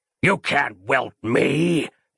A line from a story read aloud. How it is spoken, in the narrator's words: it hissed